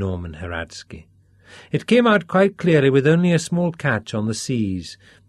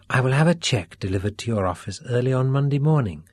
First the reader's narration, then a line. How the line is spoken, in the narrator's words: Max told them quietly